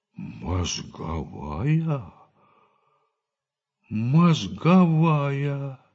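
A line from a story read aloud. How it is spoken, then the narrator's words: Disappointed drawl. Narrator (Russian): разочарованно протянул Лопахин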